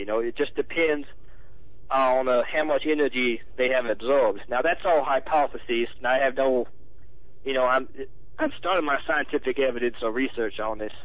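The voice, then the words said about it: Southern US accent. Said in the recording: “why are you guests talking with a southern accent? ... I came originally from the South ... I was born in Louisiana”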